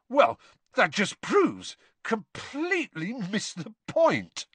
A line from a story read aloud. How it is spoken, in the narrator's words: he spluttered, looking thunderstruck